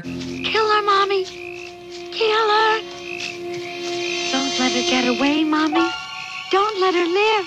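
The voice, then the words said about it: Little boy voice. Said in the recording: “in a Jason voice, like a little boy voice”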